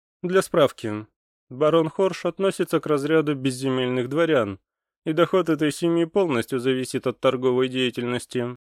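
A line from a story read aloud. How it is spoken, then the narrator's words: Dry, curt. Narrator (Russian): сказал Йенс сухо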